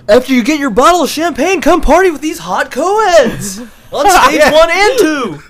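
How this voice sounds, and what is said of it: Strip club announcer voice. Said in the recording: “Can you say that in the stripper voice? The stripper announcer voice”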